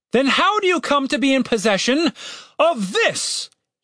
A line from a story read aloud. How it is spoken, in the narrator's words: He bellowed